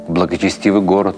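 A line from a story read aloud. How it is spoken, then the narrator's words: Plain. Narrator (Russian): сказал Рабби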